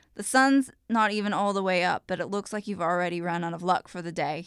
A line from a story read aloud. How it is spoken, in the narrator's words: says